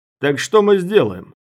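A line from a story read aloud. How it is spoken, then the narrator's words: Shout. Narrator (Russian): крикнул Дымокур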